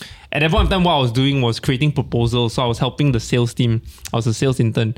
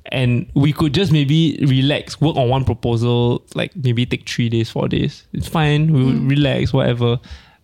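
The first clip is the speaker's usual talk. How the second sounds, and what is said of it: Put-on accent. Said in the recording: “I don't know why I use the accent, sorry.”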